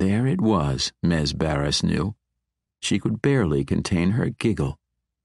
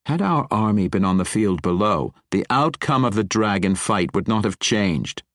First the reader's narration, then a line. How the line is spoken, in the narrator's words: Matron Mother Bayenry snapped